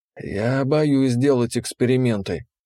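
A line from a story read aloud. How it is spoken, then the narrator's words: Tired, strained. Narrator (Russian): он говорил устало, через силу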